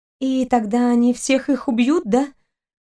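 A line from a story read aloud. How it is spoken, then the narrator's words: Trembling voice, asking. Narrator (Russian): Дрогнувшим голосом продолжила спрашивать Кристина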